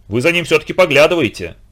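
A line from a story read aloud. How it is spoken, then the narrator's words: Stern, tight-lipped. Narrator (Russian): Строго поджав губы, сказала в заключение тетя Даша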